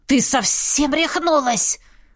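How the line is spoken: Cat hissing from bag. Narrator (Russian): зашипел кот из котомки

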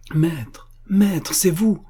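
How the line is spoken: Joyful exclamation. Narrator (French): s'écria joyeuse

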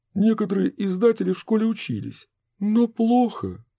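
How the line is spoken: Sigh. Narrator (Russian): вздохнул Минц

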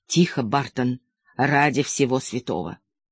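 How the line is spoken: Hiss in ear. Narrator (Russian): голос лейтенанта Нэша зашипел прямо мне в ухо

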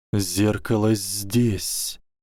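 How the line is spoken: Hissed reply. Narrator (Russian): прошипел в ответ Гарри

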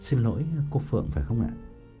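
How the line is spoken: Soft, gentle question. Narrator (Vietnamese): có người đến sau lưng nhỏ nhẹ hỏi

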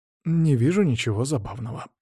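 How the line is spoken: Muttering. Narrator (Russian): пробормотал он

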